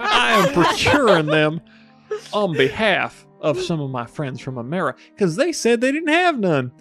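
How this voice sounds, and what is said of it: Put-on American accent. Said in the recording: “as you can tell, I am American ... The accent was a dead giveaway.”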